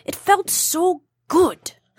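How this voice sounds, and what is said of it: Attempted South African accent, sounds Russian. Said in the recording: “I can't do the South African accent ... you almost sound a little Russian there ... It was a good try”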